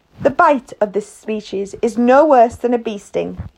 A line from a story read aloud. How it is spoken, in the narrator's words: he said